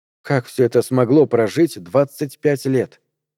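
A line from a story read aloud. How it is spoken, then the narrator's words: Quiet question. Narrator (Russian): тихо спросила Мария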